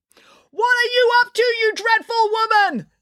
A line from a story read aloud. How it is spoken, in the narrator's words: Nanny Piggins yelled